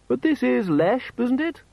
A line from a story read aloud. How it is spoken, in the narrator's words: said in a tinny yet polite voice